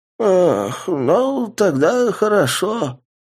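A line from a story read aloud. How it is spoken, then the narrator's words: Old woman mumbling toothlessly. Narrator (Russian): прошамкала бабка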